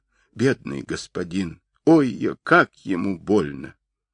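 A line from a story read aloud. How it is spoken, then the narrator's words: Sobbing speech. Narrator (Russian): Хуахчин всхлипывая, говорила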